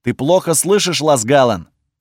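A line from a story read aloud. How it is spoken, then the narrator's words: Barking shout. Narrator (Russian): гаркнул на меня Кейнич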